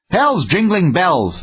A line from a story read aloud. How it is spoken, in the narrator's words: that worthy shouted